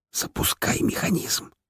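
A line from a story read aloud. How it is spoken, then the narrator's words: Whispered. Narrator (Russian): шепнул Рутлен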